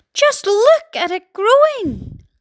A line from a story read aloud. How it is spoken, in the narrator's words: Aunt Spiker cried